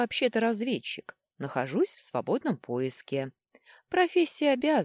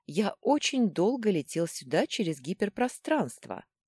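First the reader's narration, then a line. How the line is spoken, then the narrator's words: Calm explanation. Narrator (Russian): спокойно пояснил Дрык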